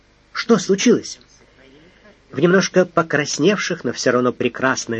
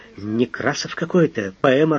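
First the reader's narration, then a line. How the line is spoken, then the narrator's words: Exasperated mutter. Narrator (Russian): не выдержав, штабс-капитан даже пробормотал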